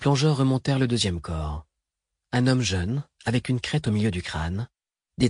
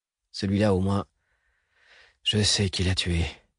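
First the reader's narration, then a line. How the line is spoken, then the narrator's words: Murmur. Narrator (French): murmura Edmé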